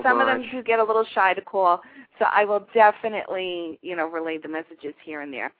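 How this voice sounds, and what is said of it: New York accent. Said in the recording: “I love your accent. It's to die for... I'm from Yonkers, New York.”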